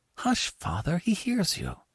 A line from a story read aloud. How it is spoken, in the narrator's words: whispered Annie